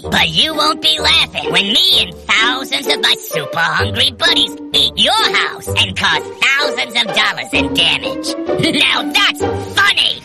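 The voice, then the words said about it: Funny-sounding cartoon termite voice. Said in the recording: “my voice sounds funny”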